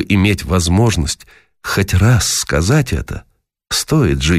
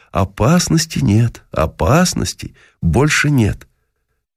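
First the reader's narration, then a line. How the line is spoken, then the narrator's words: Reassuring. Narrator (Russian): мы стали уверять ее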